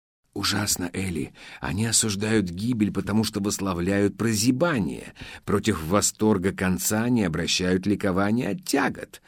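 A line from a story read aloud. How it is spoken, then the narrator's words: Puzzled inner whisper. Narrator (Russian): в недоумении прошептал Лусин, конечно, мысленно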